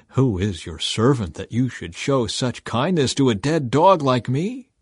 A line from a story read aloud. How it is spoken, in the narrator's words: Mephibosheth bowed respectfully and exclaimed